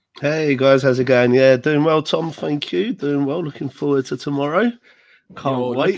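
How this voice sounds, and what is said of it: Voice still weak from illness. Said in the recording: “my voice is still not fully back”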